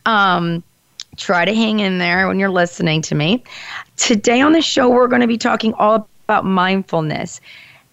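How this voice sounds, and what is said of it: Lower, nasal congested voice. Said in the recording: “I have a little bit of a cold today, so my voice is going to sound a little bit lower than it usually does and a little bit more nasally”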